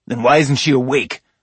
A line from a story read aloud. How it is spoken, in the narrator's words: I snapped